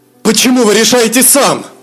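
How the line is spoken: Dragon exclaiming. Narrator (Russian): воскликнул дракон

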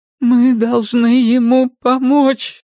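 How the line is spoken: Repeated, then sobbing. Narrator (Russian): повторила Перион и разрыдалась

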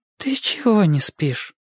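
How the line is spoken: Surprised, tender question. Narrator (Russian): удивленно и нежно спросила она

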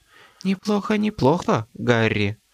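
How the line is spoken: Whisper in ear. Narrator (Russian): прошептать на ухо

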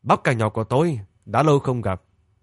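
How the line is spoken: Surprised, glad, raised voice. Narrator (Vietnamese): cậu lại tỏ vẻ ngạc nhiên, xen lẫn vui mừng, cao giọng gọi

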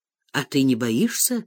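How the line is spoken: Low voice. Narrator (Russian): сказал он вполголоса

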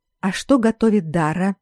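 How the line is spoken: Whispered question. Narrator (Russian): спросила тоже шепотом

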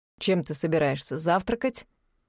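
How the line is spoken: Stern question. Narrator (Russian): строго спросил Аид

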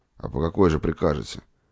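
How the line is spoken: Gloomy voice. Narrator (Russian): отвечал доктор мрачным голосом

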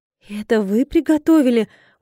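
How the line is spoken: Surprised exclamation. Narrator (Russian): удивленно воскликнула я

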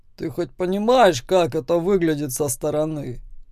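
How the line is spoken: Calm, not mocking. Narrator (Russian): спрашивает спокойно, не пытаясь меня высмеять

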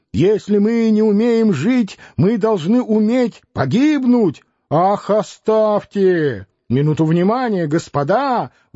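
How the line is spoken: Old man's imposing shout. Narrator (Russian): внушительно крикнул благообразный старик с длинными волосами, седобородый и носатый

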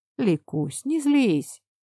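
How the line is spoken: Peaceable. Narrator (Russian): мирным тоном произнес Степан

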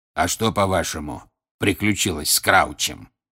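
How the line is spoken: Hoarse rasp. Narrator (Russian): прохрипел Грюм

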